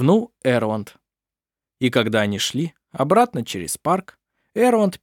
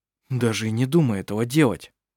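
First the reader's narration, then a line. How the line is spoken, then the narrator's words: Frightened. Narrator (Russian): испуганно произнес Хейке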